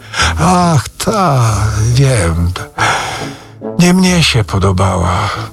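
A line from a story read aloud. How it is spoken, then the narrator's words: Sigh. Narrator (Polish): westchnął Rzecki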